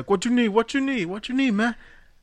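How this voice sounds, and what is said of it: Jamaican accent impression. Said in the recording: “you just did a pretty great impression of a Jamaican guy”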